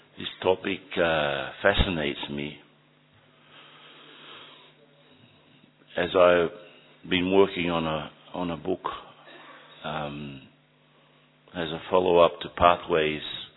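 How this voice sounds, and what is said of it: Voice with a cold. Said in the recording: “Don't know about my throat though, I've got a bit of a cold.”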